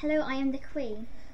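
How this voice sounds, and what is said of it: Posh upper-class English accent. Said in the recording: “Very posh.”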